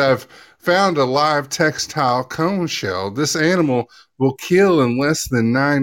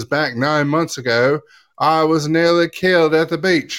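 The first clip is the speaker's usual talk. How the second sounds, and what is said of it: Weak attempt at Australian accent. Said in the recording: “I guess that didn't really sound Australian ... Oh, was that Australian you were doing? ... I'll continue without the accent”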